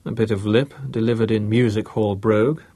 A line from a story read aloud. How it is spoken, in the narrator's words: Bruce answered